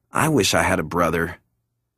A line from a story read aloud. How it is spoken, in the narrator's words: He sighed, and said